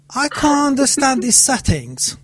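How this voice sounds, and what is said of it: Poor attempt at British accent. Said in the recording (Persian): “خیلی احمقانه و غلط این لهجه رو اجرا میکنم، بیشتر شبیه لهجه رشتی میمونه تا انگلیسی باشه ... بریتیش اکسنت ... شبیه رشتی لهجم”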